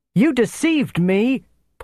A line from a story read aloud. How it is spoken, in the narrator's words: Paul had shouted at Percy